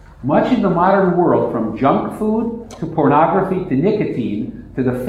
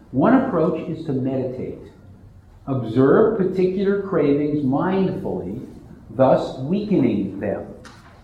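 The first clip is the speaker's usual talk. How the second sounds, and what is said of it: Lowered, quieter voice. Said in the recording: “I'm going to lower my voice.”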